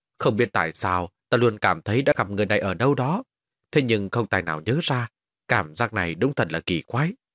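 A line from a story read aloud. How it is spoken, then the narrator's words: Muttering. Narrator (Vietnamese): Hắn lẩm bẩm nói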